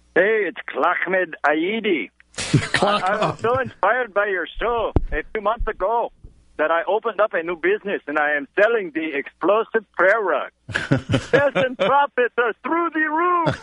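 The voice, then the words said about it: Put-on foreign accent. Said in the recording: “an accent”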